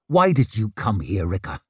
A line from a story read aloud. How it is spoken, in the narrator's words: he snarled